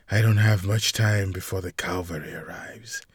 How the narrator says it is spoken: she muttered to herself

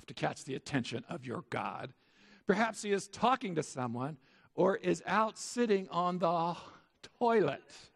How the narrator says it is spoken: scoffed

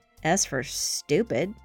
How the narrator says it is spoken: muttered Josie

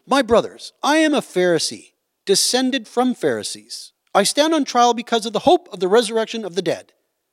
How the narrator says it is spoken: called out in the Sanhedrin

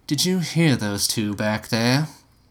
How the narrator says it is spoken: Gretchen sighed

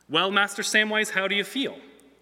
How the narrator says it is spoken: said

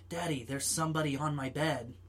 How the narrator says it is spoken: quivering and whispering

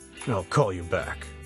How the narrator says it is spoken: he mutters into the phone

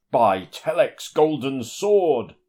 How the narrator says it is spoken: exclaim aloud

